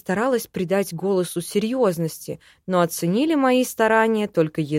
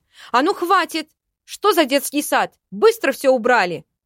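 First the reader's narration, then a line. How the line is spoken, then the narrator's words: Loud shout. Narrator (Russian): набрав в грудь побольше воздуха, крикнула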